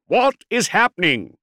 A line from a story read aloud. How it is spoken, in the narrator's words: bellowed